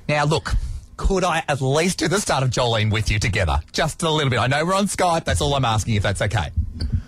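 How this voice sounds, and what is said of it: Australian accent. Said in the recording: “You have such an accent, you know... You're very down under.”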